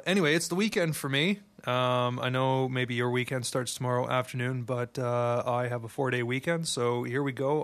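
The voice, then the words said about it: Flat monotone radio voice. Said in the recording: “my monotone voice”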